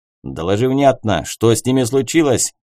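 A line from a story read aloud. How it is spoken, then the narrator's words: Bark. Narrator (Russian): рявкнул на него Финн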